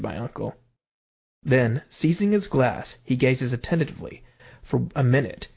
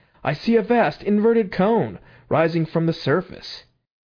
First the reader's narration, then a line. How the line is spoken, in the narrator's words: cried